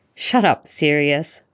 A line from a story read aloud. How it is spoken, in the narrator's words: Remus laughs, blinking back his tears